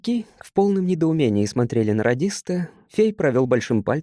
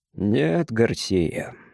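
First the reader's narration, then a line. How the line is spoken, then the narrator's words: Calm reply. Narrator (Russian): спокойно ответил Крюгер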